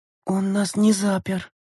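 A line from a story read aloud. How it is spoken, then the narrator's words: Astonished whisper. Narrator (Russian): прошептала Лена, округлив глаза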